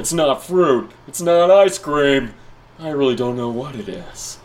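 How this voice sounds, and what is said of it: Goofy clown character voice. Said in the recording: “a goofy clown voice ... Oh, that's not bad.”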